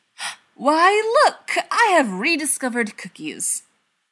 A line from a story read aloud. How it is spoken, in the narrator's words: he gasped